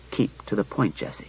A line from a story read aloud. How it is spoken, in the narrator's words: He said gently